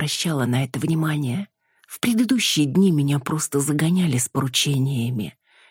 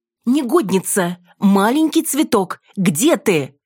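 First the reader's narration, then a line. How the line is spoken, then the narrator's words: Shouting across courtyard. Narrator (Russian): кричала на весь двор госпожа драгоценная шпилька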